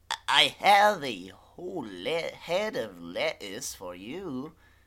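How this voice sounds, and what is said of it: Fluctuating goblin character voice. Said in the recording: “My voice is constantly fluctuating, but that's a gimmick, not a mistake.”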